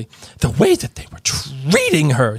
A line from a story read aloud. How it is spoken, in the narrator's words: said Hermione furiously